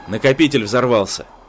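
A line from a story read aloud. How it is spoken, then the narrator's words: Loud. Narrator (Russian): громко произнес Рэй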